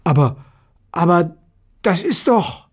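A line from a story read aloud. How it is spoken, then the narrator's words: Astonished exclamation. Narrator (German): rief erstaunt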